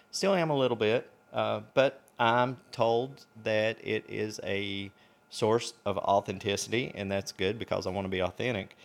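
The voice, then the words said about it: Speaks with a noticeable accent. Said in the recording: “I know you're here for the accent, which almost kept me from doing the podcast. I was really self-conscious about it.”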